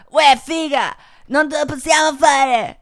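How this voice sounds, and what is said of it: Put-on Milanese accent. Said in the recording (Italian): “Com'è accento milanese? ... Amore, com'è l'accento milanese?”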